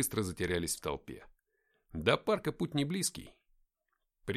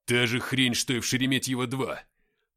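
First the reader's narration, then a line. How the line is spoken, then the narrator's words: Growling. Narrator (Russian): прорычал Игнат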